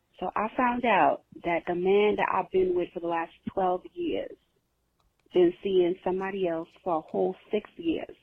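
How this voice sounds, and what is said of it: New York accent. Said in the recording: “I love this New York ass accent.”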